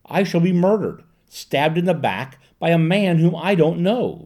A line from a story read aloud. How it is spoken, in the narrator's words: Varric rushed on desperately